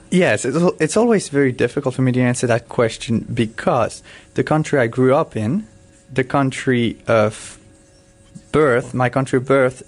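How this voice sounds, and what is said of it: An interesting, hard-to-place accent. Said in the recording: “you have this interesting accent”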